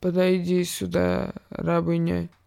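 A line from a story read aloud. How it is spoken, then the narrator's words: Careless old woman's tone. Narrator (Russian): сказала старая госпожа небрежным тоном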